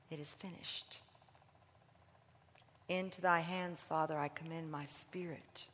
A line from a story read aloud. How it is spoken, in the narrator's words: you could hear his whispers